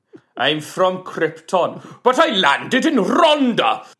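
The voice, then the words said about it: Put-on Welsh accent. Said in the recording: “Welsh. ... Accent work. Listen to the accent work.”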